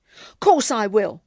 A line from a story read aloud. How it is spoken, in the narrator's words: said a little too firmly